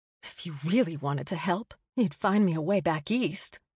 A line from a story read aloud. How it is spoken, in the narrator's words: she muttered to the ground